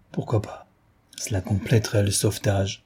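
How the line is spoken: Kindly man's half-voiced murmur. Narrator (French): murmurait l'aimable homme à mi-voix

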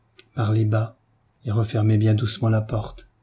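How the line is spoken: Low half-voice. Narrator (French): lui dit Marie à mi-voix

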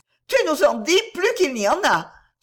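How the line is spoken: Little girls exclaiming. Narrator (French): s'écrièrent les petites filles

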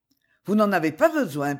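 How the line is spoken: Cheerful continuing. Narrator (French): poursuivit gaiement le chanoine

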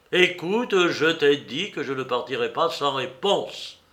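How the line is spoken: Irritated exclamation. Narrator (French): s'écria Ivan irrité

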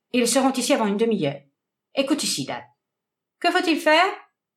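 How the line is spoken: Cold. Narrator (French): dit froidement le docteur

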